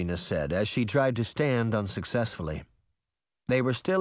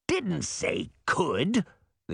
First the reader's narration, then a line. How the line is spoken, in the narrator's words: the old crone croaked